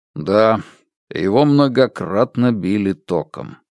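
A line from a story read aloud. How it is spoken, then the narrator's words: Grim. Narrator (Russian): мрачно добавил криминалист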